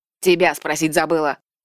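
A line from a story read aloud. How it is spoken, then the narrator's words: Snorting. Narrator (Russian): фыркнула она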